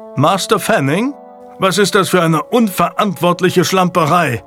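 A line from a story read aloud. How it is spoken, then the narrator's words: Thundering sheriff. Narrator (German): donnerte der Sheriff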